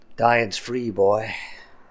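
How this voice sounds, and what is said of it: Creepy character voice. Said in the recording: “creepy voice”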